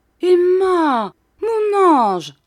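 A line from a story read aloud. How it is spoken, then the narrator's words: Exclaimed. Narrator (French): s'écria Monsieur Micawber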